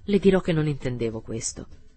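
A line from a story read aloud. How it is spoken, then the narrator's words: Coldly. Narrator (Italian): continuò freddamente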